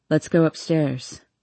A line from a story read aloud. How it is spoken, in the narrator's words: he says